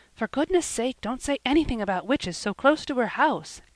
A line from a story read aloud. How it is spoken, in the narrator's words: gasped Felicity